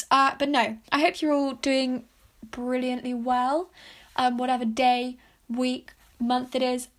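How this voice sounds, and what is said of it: Strained, worn-out voice. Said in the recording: “my voice sounds like maybe I'm dying, it's probably because my voice is dying, because the first podcast episode I've done ... took me about 4 tries to record”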